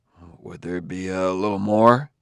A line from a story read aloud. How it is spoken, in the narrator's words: muttered in a shame-faced way